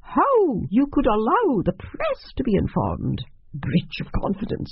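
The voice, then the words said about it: Stern, high-pitched character voice. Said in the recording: “A stern, high voice.”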